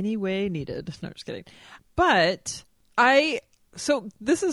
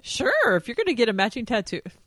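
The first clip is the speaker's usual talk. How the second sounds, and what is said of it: Voice goes suddenly high-pitched. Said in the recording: “Why did my voice get so high?”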